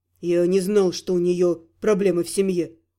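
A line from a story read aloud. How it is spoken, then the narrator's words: Sigh. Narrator (Russian): Вздохнул Гал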